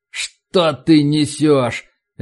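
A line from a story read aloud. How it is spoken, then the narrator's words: Barking. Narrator (Russian): рявкнул Макнамара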